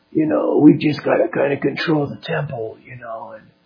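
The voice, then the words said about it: Bad put-on mafia accent. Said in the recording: “I have a really, really bad mafia accent”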